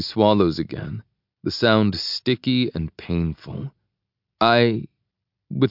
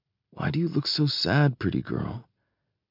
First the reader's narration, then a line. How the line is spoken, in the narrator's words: whispering